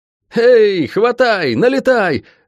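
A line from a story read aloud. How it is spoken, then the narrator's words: Yelling former guard. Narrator (Russian): заорал бывший стражник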